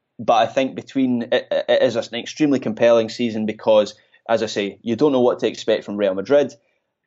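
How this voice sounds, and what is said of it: Scottish accent. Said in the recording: “Scottish brogue”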